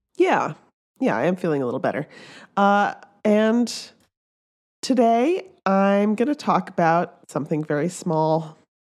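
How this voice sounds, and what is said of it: Hoarse, laryngitic voice. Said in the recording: “I still have laryngitis. ... it's sounding better, though.”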